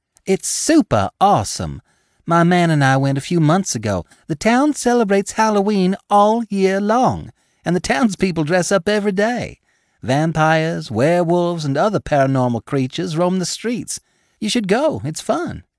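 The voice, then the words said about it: Sweet Georgia accent. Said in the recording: “her Georgia accent just as sweet as it could be.”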